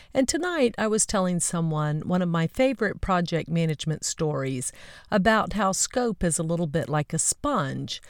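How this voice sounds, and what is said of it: Slightly hoarse voice. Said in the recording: “my voice is a little hoarse from all of the conversations”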